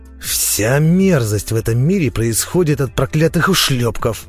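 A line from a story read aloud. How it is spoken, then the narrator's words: Defiant growl. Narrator (Russian): с вызовом прорычал тот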